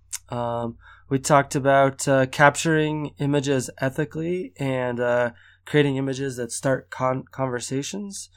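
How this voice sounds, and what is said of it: Congested voice from a cold. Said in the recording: “I've got a cold, so my voice sounds funny”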